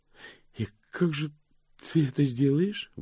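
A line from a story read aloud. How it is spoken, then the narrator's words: Strained. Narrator (Russian): выдавила она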